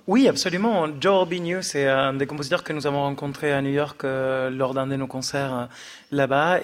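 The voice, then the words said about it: Argentine accent in French. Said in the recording (French): “Vous avez un joli accent argentin.”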